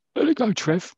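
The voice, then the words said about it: Imitates another person's voice. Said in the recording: “my impression of Malcolm McDonald”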